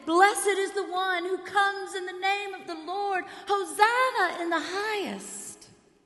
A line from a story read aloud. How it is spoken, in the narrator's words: they shouted